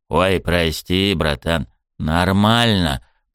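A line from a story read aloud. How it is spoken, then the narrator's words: Wheezed. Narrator (Russian): Просипел я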